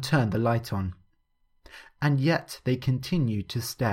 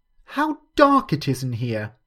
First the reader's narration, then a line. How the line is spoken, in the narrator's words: she loudly cried